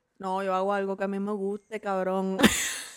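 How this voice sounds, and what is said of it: Imitating another man's accent. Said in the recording (Spanish): “Hazlo con su acento.”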